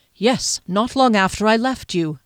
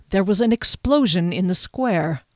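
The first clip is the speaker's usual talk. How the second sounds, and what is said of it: Low voice. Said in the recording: “spoke in a low voice”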